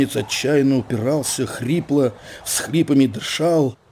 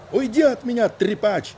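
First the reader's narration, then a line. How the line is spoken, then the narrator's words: Shrieked. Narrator (Russian): взвизгнул снабженец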